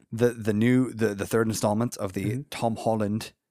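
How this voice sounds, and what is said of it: Weak put-on British accent. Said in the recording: “that was my British accent ... That was supposed to be British.”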